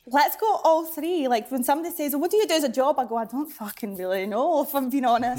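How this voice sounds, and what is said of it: Slight regional British accent. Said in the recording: “just a touch of an accent there, just a slight one. ... north of the border”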